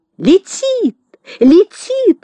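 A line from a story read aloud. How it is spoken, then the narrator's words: Sudden shriek. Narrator (Russian): вдруг взвизгнула Элли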